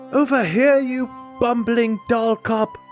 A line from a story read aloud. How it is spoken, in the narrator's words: yell